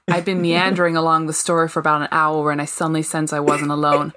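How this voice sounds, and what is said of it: Put-on American accent. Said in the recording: “I'm going to try and pull in my best American accent”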